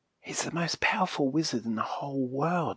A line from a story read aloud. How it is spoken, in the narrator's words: whispered back Silky